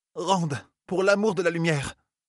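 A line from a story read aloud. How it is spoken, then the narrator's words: Exclaimed. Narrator (French): s'écria Mine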